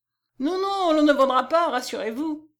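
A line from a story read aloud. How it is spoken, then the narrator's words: Resounding cry from next room. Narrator (French): s'écria Petit Clos dont la voix retentit dans la pièce qui précédait la chambre à coucher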